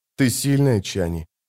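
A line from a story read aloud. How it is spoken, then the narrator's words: Barely audible. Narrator (Russian): проговорил он еле слышно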